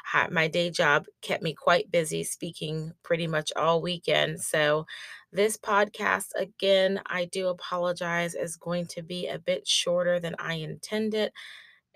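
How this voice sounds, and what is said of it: Worn-out, strained voice. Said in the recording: “my voice is fried”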